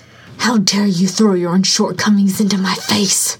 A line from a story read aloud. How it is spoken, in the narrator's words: He hissed